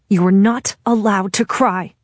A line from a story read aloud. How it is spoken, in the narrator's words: I tell her as harshly as I can